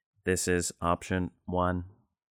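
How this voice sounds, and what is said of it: Robotic voice. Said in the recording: “You have to say that with a robot voice.”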